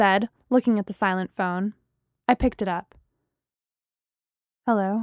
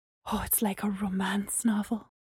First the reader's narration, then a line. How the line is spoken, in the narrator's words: Gemma said under her breath